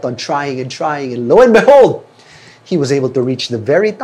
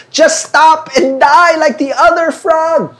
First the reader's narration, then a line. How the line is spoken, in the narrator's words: the other frogs kept yelling